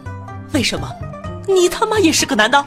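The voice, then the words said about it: Trembling voice. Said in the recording (Chinese): “颤抖的声音说道”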